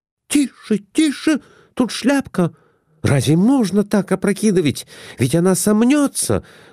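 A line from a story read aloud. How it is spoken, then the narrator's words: Exclamation. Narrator (Russian): воскликнула Глафира Семеновна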